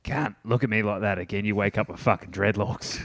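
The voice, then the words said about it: Broad Australian accent. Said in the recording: “like real Australian accent”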